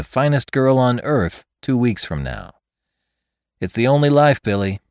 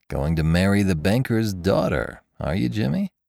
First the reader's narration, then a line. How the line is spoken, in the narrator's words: said Ben to himself softly